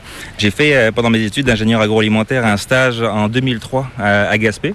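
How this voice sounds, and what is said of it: Slight non-Québécois French accent. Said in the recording (French): “tu as une petite pointe d'accent qui est assez difficile de deviner ... c'est pas l'accent québécois”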